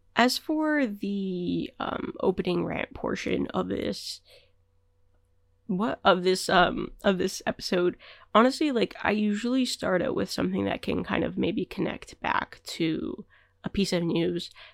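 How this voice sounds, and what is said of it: Sick-sounding voice. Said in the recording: “I got sick like Tuesday night ... sorry about my voice”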